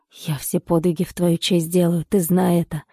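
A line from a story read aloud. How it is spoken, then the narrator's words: Farewell whisper. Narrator (Russian): прошептал на прощание Саша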